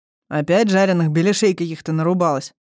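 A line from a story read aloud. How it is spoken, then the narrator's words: Distant male grumbling. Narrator (Russian): проворчал из глубины комнаты мужской голос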